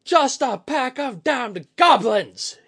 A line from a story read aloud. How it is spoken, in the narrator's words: he roared